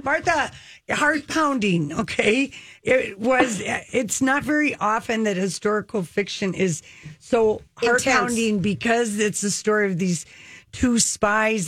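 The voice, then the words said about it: Minnesota accent. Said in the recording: “fabulous accents, by the way. ... Can you hear the Minnesota?”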